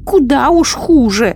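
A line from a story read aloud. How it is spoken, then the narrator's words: Woman shouting. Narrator (Russian): закричала ведунья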